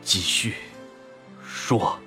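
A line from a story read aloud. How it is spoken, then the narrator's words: Trembling, hoarse, restrained. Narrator (Chinese): 用颤抖、沙哑、竭力遏制的声音说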